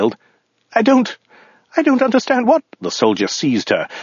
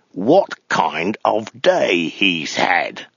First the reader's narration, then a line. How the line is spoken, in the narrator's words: he hissed